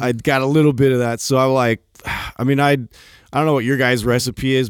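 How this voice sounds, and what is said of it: Husky voice from a cold. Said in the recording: “your voice is kind of ... I'm like Adam-y. Extra sexy today. ... fighting this right now ... getting a cold”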